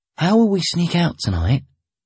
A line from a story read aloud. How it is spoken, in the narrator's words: I asked in a whisper